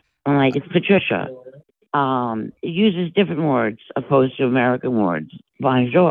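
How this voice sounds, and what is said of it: Usual voice. Nothing is said of it.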